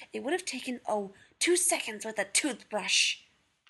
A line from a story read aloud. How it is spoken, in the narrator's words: John hissed